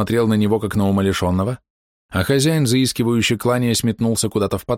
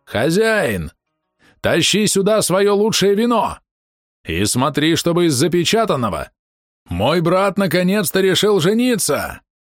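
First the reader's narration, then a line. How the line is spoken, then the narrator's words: Shout across the tavern. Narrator (Russian): Баше заорал на всю таверну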